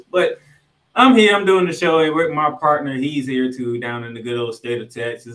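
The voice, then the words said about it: Tired-sounding voice. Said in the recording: “I am kind of tired. You might can hear it in my voice.”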